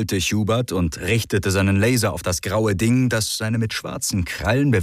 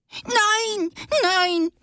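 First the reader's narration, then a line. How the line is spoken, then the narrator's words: Squeaky shriek. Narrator (German): kreischte das graue Ding mit quietschiger Stimme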